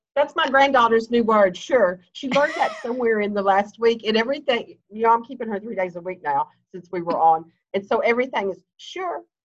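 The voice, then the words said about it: Kentucky American accent. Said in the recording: “I love your accent ... I'm from Kentucky”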